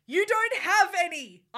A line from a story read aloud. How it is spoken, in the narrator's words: yelled in madly